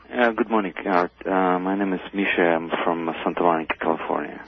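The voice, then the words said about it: Russian accent. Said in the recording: “I think I detect a Russian accent”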